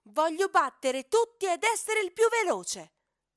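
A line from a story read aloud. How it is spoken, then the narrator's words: Loud shouting. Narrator (Italian): grida a gran voce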